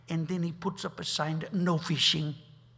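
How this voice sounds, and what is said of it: Thick Dutch accent, imitating Corrie ten Boom. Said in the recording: “In her thick Dutch accent.”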